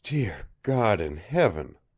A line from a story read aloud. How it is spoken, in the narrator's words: breathed Jolly Roger